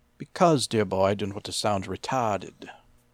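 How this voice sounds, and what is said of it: Put-on proper British accent. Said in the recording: “Why didn't you try to do a British accent and act proper? ... Like that?”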